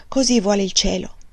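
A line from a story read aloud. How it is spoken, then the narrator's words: Men sighing. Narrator (Italian): gli uomini sospiravano e dicevano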